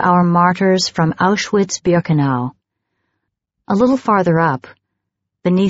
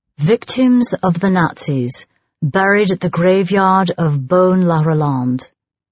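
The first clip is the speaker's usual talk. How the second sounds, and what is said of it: Polished British accent. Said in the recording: “read out loud, with his polished British accent”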